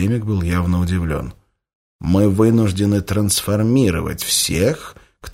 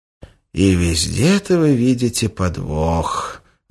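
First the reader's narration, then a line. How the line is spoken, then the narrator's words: Sighing. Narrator (Russian): вздохнул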